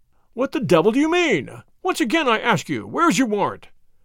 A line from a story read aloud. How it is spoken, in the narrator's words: shouted the furious Peters